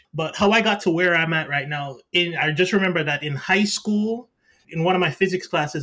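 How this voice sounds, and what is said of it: Jamaican accent. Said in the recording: “I'm going to throw in a little bit of the Jamaican accent in there”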